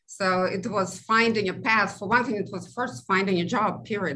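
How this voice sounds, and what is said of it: Immigrant's non-native English accent. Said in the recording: “you can probably hear from my accent, I'm a first generation immigrant”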